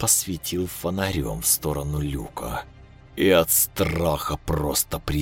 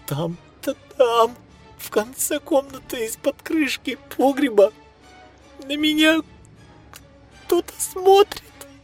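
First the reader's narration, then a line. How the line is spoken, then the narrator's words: Trembling voice. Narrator (Russian): Она дрожащим голосом сказала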